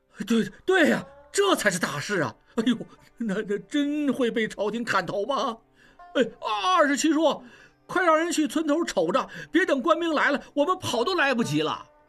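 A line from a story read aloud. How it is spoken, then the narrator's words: Crowd clamoring. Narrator (Chinese): 众人反应过来，面面相觑，嚷嚷道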